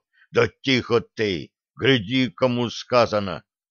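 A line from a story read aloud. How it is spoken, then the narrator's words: Muffled hiss. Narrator (Russian): Прикрыв рот да кашляв в кулак, неслышно прошипел бывший лихой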